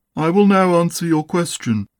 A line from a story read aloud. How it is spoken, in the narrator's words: he said solemnly